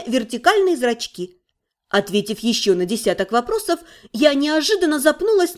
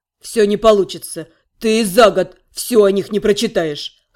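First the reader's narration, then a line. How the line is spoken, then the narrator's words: Wizard's snort. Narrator (Russian): хмыкнул маг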